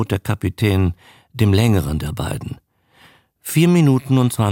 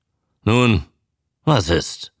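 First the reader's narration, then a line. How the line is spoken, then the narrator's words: Sharp question. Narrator (German): fragte scharf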